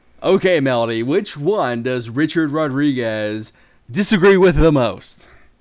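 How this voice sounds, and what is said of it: Announcer-style radio voice. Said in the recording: “do my radio voice”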